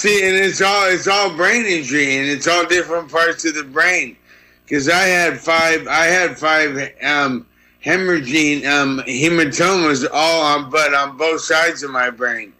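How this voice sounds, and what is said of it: Slurred, dysarthric speech. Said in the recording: “my voice is dysarthria. So I guess I'm drunk forever.”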